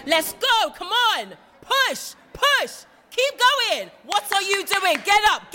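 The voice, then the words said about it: Loud shouting trainer voice. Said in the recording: “when you go into trainer mode, you don't sound like this ... Might turn the volume down on that bit.”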